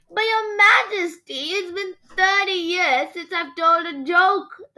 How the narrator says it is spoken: the jester whined

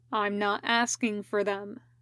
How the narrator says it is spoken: Raito said calmly

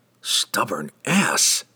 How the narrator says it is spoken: whispered harshly

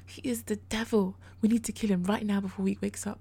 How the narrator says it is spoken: the victim said urgently, vengeance in his bloodshot gaze

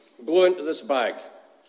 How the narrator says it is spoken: said the policeman

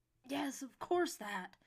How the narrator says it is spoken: snapped Yates testily, still angry with himself

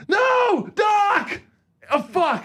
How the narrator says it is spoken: Fox is yelling, like he keeps on going

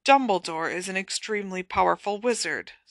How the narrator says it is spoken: Snape muttered

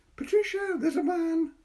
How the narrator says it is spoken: he cried

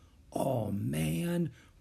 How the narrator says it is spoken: whispered Jack

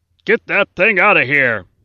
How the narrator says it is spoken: the warden shouted

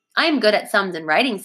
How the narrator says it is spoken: said Sarah

